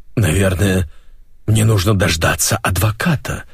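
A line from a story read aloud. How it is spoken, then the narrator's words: Helpless exhale. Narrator (Russian): беспомощно выдохнул Печорский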